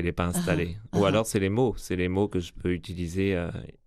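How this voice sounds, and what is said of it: Slight French accent, Belgian tinge. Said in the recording (French): “on voit un petit accent français. ... Certains disent belge ... j'ai presque pris un accent belge aussi. ... il est un peu arrondi, votre accent”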